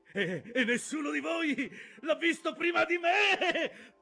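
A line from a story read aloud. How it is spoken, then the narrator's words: Shouted. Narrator (Italian): gridò Aqab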